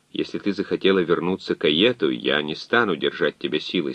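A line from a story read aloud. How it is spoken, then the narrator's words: Plain. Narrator (Russian): сказал он Медее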